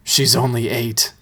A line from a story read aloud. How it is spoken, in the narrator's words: he replied grimly